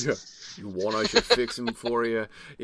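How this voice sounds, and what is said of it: Put-on Brooklyn accent. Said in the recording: “Is Gothmog going to talk with a Brooklyn accent?”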